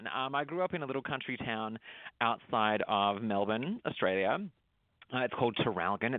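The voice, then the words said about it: Slight mixed Australian accent. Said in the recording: “I detect a little bit of accent ... it is only a little bit of an accent at this point ... my accent's a little bit of a mishmash, but it is mostly, I believe, Australian”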